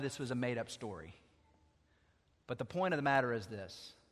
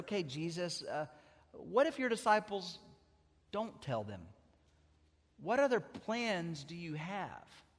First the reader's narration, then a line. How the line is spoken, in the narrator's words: another angel just timidly raised his hand and said